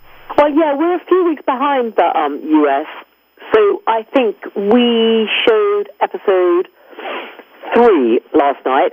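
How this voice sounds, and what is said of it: Luxurious accent. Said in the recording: “the most luxurious accent ever”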